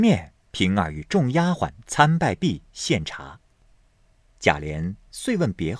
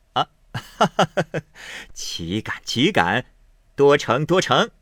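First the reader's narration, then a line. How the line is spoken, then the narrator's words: Laughing. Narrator (Chinese): 贾琏笑道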